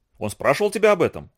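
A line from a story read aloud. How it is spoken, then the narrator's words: Ringing, demanding and sharp. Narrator (Russian): Голос казака зазвенел требовательно и резко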